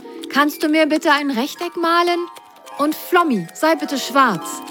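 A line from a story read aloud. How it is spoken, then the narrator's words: Excited call. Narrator (German): rief Grasgrün aufgeregt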